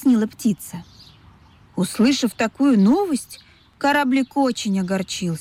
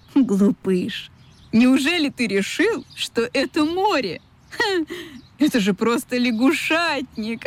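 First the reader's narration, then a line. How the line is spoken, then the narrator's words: Laughing. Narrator (Russian): засмеялась чайка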